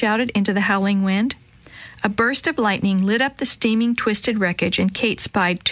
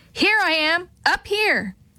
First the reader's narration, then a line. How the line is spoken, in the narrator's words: One of the men called out to her again and again